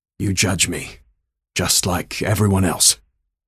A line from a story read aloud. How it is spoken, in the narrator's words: Var croaked